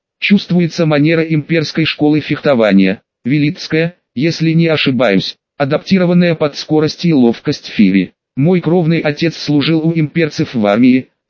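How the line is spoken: Plain. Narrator (Russian): сказала Шари

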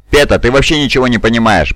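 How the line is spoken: Grumbling. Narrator (Russian): проворчал грамматикус

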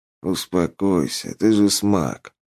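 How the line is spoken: Weary request. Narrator (Russian): устало попросил Радагост

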